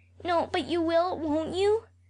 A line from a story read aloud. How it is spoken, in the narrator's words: said Alexander Abraham anxiously